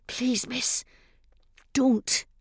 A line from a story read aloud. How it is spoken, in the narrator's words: I hissed